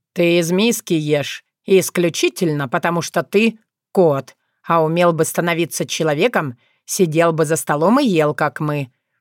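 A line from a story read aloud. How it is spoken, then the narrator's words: Snorted. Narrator (Russian): фыркнул Вран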